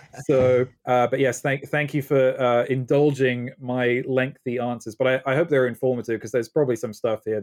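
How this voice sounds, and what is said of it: Faint British accent. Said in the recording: “I have my faint British accent still ... I haven't completely lost my British accent”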